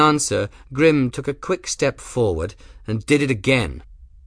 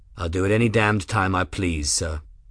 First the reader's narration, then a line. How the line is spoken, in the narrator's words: Grimm said in the same level voice